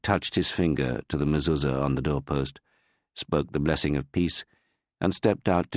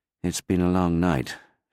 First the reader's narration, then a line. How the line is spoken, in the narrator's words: Shimon said wearily